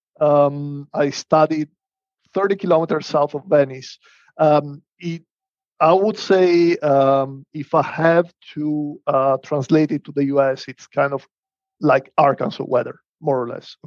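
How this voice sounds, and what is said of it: Northern Italian accent. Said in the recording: “You can tell from my accent that I'm not from the US ... I am from Northern Italy, kind of Venice area”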